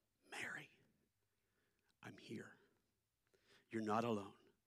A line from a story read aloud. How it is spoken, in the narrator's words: God whispered